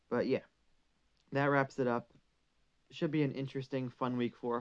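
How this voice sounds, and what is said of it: Slightly hoarse voice. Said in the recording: “my voice is a bit hoarse after talking for so long”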